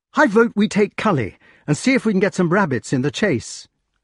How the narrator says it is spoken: cried the wart

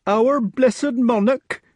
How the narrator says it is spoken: said the nurse tearfully

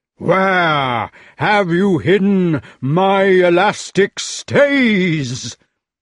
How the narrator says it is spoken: thundered the giant

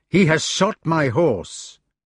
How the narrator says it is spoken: Then he added in an angrier voice and flushing

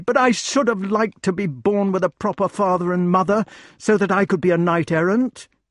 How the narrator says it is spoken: he cried

